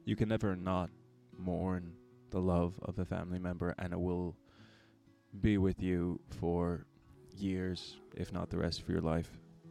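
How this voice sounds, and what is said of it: Choked-up, emotional voice. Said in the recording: “I'm getting a little bit choked up.”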